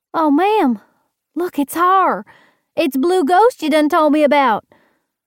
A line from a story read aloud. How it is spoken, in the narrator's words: the small young'un cried out